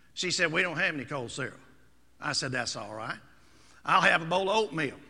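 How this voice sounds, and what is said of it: Speaks with a regional accent. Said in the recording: “given my accent”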